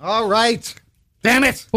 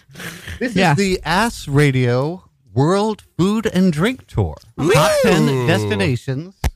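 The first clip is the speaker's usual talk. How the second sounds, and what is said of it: Lower announcer-style radio voice. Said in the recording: “Your radio voice when products. You do that is so funny... like it's not at all your regular voice... I changed a little bit... My voice is lower on the radio”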